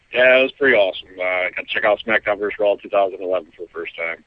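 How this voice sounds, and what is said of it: Sick-sounding voice. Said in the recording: “pardon my voice. I've been sick since I got back.”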